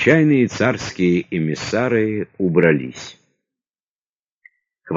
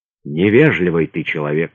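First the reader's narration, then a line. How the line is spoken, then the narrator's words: Sigh. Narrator (Russian): вздохнул Распутин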